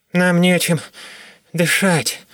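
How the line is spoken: Strained, forced out. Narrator (Russian): выдавил Гольга

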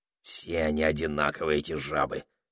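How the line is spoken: Muttered. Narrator (Russian): пробормотал он

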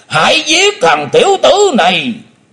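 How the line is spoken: Roaring shout. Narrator (Vietnamese): Lão đại ác ma theo tiếng gầm quát

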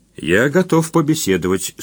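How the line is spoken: Calm. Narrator (Russian): спокойно произнес Успенский

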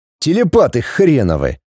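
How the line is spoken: Grumbling. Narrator (Russian): проворчал скрипач

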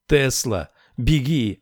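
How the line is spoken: Shout. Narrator (Russian): крикнул Сет

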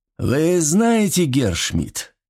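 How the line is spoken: Thoughtful, drawn-out. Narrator (Russian): задумчиво протянул Петр

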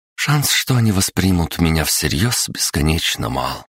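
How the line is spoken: Sighed. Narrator (Russian): вздохнула Анастасия

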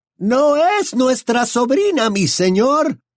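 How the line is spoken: Shouting over laughter. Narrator (Spanish): gritó para hacerse oír por encima de las risas

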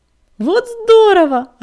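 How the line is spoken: Joyful exclamation. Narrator (Russian): радостно воскликнула пепелюшка

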